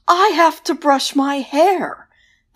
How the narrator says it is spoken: banshee wailed

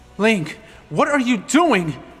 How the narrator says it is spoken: Ruto exclaimed

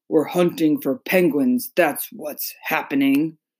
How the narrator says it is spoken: They growled

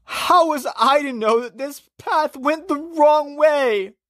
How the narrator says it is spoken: Christian moaned

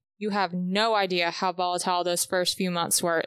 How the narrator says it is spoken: Lucien snapped

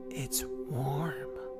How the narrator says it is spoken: whispered

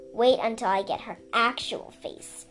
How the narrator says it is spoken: Sundu snarled

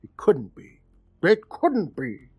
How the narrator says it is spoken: muttering

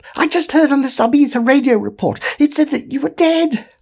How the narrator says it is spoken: it squealed

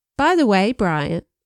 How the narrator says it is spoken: I said

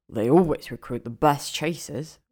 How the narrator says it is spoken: Ron grunts

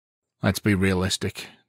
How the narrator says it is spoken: the officer said with a sigh

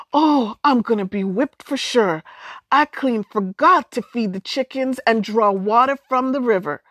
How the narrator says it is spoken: Sookie cried

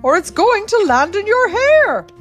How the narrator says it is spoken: shouted Keeper McCrupp

